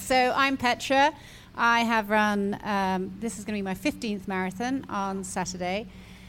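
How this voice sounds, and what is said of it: British accent. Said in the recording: “Miss Cool British Accent”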